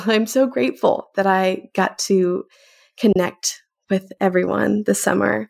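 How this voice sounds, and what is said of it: Emotional, slightly choked voice. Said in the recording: “I'm getting a little emotional”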